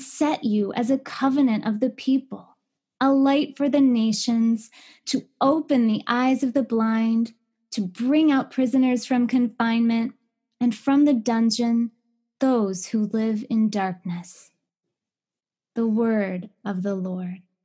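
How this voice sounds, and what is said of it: Formal scripture-reading lector voice. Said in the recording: “you have such a good lector voice and such a good teacher voice.”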